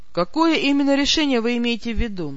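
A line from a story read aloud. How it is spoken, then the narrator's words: Unnaturally calm. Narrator (Russian): Неестественно спокойно уточнил мой собеседник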